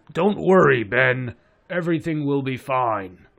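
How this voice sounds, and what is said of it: Weak Optimus Prime voice impression. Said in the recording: “my Optimus Prime impression was anything”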